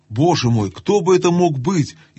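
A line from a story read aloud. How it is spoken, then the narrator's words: Frightened whisper. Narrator (Russian): испуганно прошептала Люси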